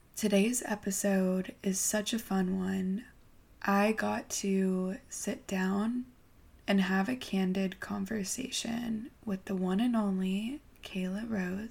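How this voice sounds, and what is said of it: Sleepy, just-woken-up voice. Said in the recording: “I just woke up. So I'm sorry if I sound a little sleepy”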